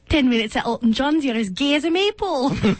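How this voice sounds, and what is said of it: Imitation of Joe's accent. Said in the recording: “I could do Joe's accent all day long. ... Wow, you are Joe.”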